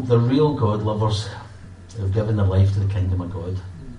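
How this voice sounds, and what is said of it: Posh non-Glaswegian British accent. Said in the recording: “You'll notice that I'm not from Glasgow. My accent's much posher.”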